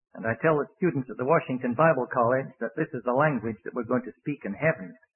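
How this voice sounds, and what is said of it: Foreign-sounding accent. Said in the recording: “said that I talked funny ... He never changed my accent”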